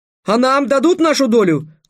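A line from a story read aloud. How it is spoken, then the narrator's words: Exclaiming in chorus. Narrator (Russian): хором воскликнули племянники Майхеля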